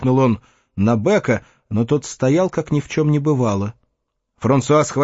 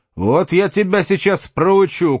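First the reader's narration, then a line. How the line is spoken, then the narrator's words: Shouted. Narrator (Russian): крикнул он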